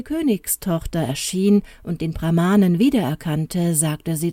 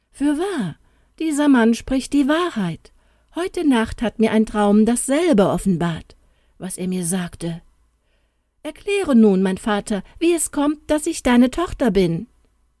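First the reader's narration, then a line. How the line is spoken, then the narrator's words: Astonished exclamation. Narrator (German): Als die Prinzessin dies hörte, rief sie erstaunt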